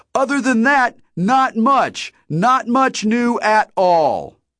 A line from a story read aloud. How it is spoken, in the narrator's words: shouted